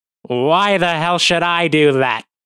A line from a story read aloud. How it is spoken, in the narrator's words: Astorga sneers